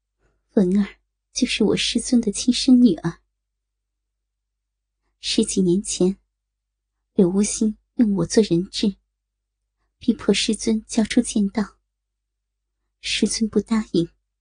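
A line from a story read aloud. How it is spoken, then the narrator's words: Sorrowful sighing. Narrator (Chinese): 玉清心无比幽怨的…叹息道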